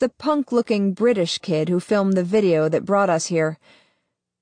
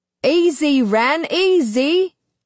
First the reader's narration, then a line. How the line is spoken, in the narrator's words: shouts a second voice